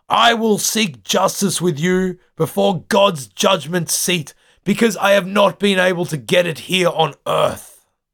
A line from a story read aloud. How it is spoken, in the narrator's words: He yells out to Pelsart and the ship's council